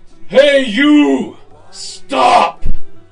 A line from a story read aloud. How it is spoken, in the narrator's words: Ungli Mall yelled out in a ferocious, awful voice